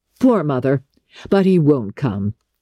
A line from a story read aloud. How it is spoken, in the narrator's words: her son laughed